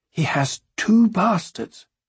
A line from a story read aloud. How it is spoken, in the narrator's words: she whispered